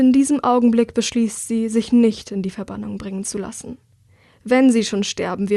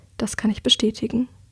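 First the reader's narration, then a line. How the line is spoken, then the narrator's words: Quiet. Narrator (German): sagt sie leise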